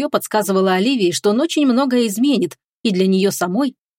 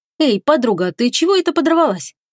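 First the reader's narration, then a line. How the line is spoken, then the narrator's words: Cheerful question. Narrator (Russian): весело поинтересовалась она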